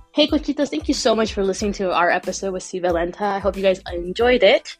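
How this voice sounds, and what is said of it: Sick-sounding voice. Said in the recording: “if you can't tell by my voice, I'm all a little sick right now”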